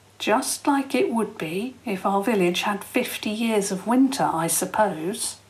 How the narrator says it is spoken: Tom said quietly

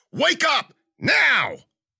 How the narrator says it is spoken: he yelled

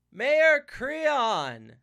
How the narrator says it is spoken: Jason bellowed as if addressing another captain across the water

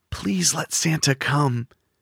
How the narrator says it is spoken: whispered

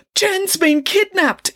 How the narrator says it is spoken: exclaimed the boy

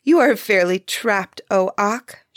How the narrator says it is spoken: she exclaimed, laughing

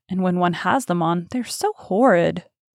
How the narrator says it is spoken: muttered Hallward

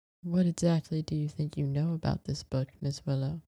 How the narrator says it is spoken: His voice was low

